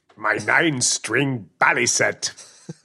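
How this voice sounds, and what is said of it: Bad Captain Picard impression. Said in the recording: “my worst Picard impression.”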